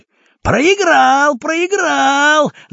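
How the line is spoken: Shout. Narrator (Russian): закричал кожаный

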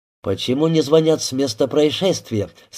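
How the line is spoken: Plain. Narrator (Russian): спросил Рябинин

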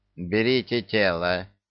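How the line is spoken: Hunchback's hoarse voice. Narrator (Russian): услышал он хриплый голос горбуна

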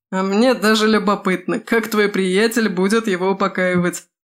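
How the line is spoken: Chuckling. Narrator (Russian): хохотнул Симая

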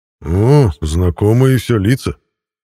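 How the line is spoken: Enthusiastic exclamation. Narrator (Russian): с энтузиазмом воскликнул Мирон

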